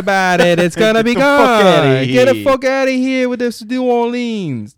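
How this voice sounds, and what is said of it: Put-on Boston accent. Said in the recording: “that's a Boston accent, right? ... That's Boston. We created that accent.”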